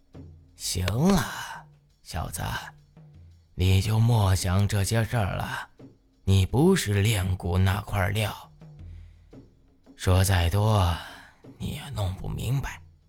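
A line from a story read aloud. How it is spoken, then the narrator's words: Sighing. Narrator (Chinese): 老杨叹了口气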